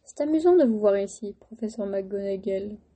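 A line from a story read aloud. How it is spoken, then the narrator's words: Plain. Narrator (French): dit-il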